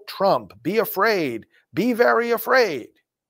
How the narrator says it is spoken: to yell

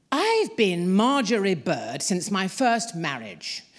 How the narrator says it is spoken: my mother said in her booming voice to the postmistress, Mrs

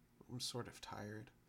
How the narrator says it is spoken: the girl closed her eyes before murmuring

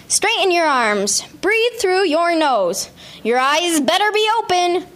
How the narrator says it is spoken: yells demands into the air

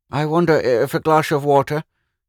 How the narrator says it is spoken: he said feebly

